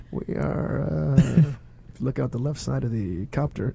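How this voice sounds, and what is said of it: Calm, smooth airline-pilot voice. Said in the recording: “smooth as glass ... just talking like this. Like an airline pilot.”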